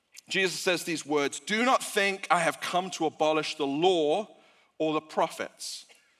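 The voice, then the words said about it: Speaks with a noticeable accent. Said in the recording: “in case you get lost because of my accent”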